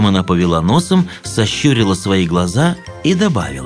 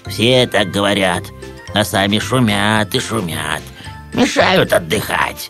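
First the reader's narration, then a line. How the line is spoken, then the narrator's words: Grumbling rat. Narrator (Russian): ворчала крыса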